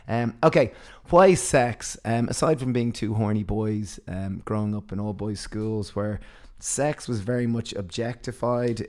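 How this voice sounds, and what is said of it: Sultry, husky voice. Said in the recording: “my voice is sounding a little bit sultry ... my voice is sounding so sultry”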